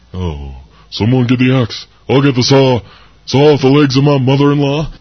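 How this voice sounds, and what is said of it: Elvis Presley impression. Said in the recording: “do your best Elvis impersonation ... That was a good one, fake Elvis. He's an imposter.”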